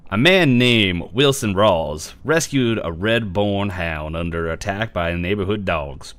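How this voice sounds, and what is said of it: Announcer-style reading voice. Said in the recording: “we need an announcer voice for this ... There's a reason why I went right to this voice”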